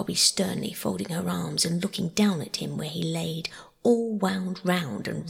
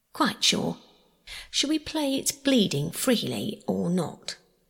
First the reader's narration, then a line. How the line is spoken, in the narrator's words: asked cheerfully